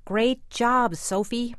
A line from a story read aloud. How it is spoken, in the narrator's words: shouted